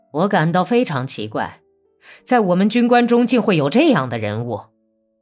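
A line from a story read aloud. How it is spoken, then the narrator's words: Suppressed anger. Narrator (Chinese): 他抑制着满腔的愤怒说话了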